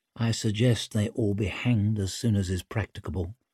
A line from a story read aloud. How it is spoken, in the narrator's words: Pike leaned close to murmur